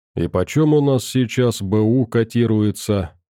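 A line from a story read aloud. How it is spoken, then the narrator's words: Bored, uninterested voice. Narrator (Russian): Совсем не заинтересованным голосом спросил Силок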